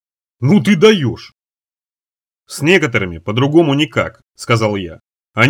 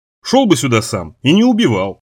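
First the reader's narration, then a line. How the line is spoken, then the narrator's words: Snapping retort. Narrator (Russian): огрызнулся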